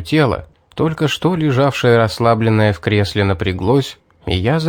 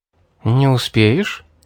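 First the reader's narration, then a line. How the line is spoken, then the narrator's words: Soft question. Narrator (Russian): мягко спросила Мэри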